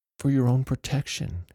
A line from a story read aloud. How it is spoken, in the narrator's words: whimpered